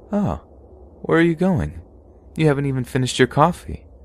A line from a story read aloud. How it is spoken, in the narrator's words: said in a calm voice